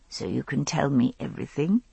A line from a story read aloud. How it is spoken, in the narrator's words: I said, my voice husky with sleep